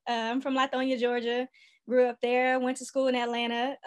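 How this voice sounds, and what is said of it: Southern US Georgia accent. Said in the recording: “I'm born and raised from Georgia. You can probably hear the accent.”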